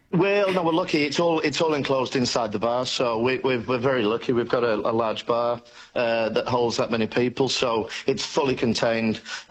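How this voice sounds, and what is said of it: Non-Australian foreign accent. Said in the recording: “my dodgy accent, I do come from somewhere else in the world ... I did pick that.”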